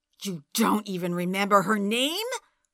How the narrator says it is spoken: snarled

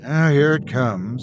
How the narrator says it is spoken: I sighed

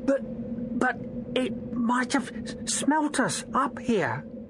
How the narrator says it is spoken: he stammered

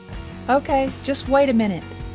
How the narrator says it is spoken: Jerry yelled back as if Sky couldn't hear him through the door

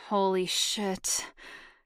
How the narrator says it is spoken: he moaned

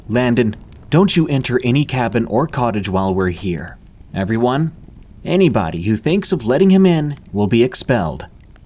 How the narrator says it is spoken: Bradius sternly ordered

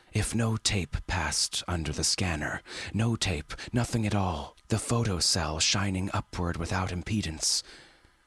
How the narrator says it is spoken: Poole interrupted, his voice low and intently careful

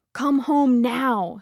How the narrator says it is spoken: screamed the SOE operatives back in England

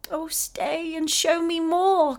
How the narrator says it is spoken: cried Effie

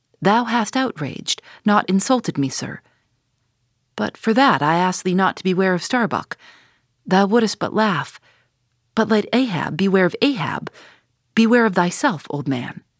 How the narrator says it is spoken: mastering his emotion, he half calmly rose, and as he quitted the cabin, paused for an instant and said

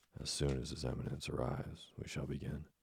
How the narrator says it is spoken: his voice was lost in a thunderous outburst of disapproval

